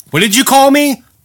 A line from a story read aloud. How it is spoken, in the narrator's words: the boss yelled